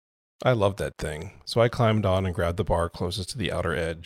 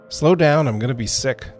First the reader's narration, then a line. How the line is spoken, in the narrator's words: called out